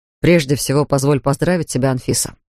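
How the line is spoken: Plain. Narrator (Russian): сказал он

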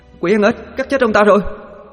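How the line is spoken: Female ghost shrieking. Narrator (Vietnamese): Con ma nữ hét lịch

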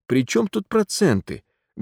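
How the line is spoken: Sad objection. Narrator (Russian): грустно возражал Кирюха

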